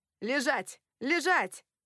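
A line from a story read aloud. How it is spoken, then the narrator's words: Shouted through plastic mask. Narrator (Russian): крикнул сквозь пластиковую защитную маску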